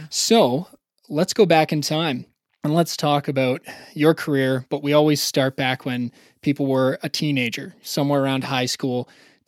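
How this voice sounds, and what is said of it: Canadian accent. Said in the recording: “I have a Canadian accent”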